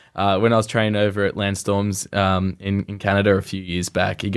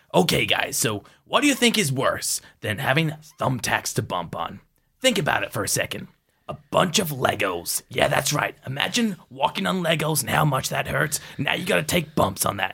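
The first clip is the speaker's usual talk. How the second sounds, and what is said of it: Impression of wrestler Johnny Devine. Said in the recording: “I can actually do a decent Johnny Devine impression.”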